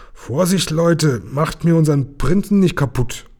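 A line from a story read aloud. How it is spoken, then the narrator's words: Amused grumble. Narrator (German): Lukas schmunzelnd brummte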